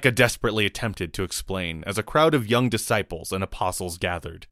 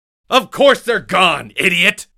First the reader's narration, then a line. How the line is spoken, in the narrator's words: Luke shouted the boy down